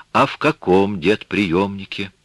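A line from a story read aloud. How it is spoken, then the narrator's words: Sad. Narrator (Russian): Она не допрашивала, ее голос звучал печально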